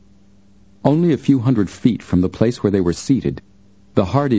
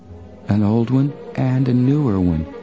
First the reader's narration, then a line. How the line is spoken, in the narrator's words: Joe murmured